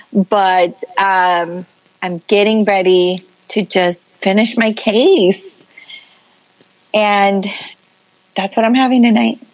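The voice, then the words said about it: Sad, downcast tone. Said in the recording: “You sound very sad”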